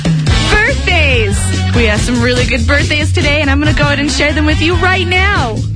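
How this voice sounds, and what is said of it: Exaggerated radio announcer voice. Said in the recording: “Dude, that's the worst announcer voice.”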